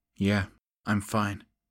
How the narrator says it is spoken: she said, her voice cold and level

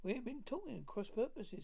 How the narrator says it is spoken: said she

